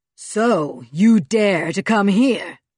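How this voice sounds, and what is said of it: Loud, booming, angry voice. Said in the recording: “A voice boomed into their cave, a loud and angry voice”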